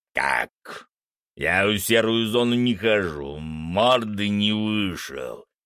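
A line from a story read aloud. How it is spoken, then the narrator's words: Growl. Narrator (Russian): прорычал Фенрис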